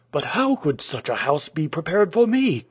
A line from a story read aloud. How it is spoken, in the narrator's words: cried the man, with a resentful tremor in his voice